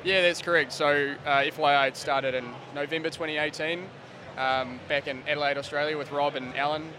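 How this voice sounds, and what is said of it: Hoarse, strained worn-out voice. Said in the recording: “My voice is pretty much gone”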